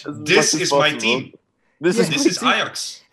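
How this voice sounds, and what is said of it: Put-on Dutch accent. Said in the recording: “you put up the accent a little bit... just go full Dutch”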